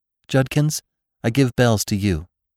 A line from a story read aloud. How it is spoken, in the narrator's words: said Jane